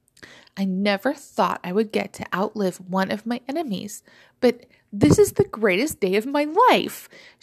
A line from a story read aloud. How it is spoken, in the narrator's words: she exclaimed, unashamed